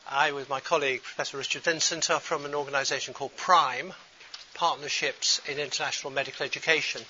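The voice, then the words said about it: Non-American accent. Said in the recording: “You can probably tell by my accent I'm not from the States.”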